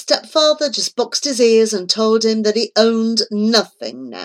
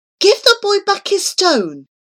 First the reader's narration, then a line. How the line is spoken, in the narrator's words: begged his mother, seeing her son's stricken face